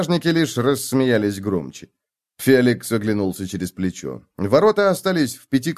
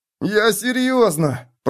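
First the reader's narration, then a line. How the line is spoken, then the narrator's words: Whining. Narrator (Russian): проскулил Миттельбергер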